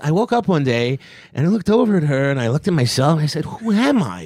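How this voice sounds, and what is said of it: Imitates another person's voice. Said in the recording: “You do a really good impression of him.”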